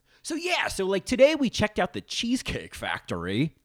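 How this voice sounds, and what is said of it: Intense projected bassy podcaster voice. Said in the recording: “there is a straight guy podcast voice ... It's not the NPR head voice. It's more of this like in the diaphragm, uh, like intense kind of projection ... less treble ... and more bass”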